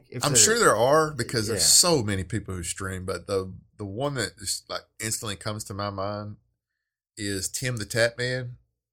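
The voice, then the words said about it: Thick Southern American accent, drawn-out vowels. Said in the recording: “a Southern accent ... his isn't as thick as mine ... the vowels are kind of drawn out”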